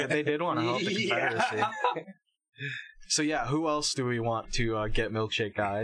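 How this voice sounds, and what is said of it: Usual voice. Nothing is said of it.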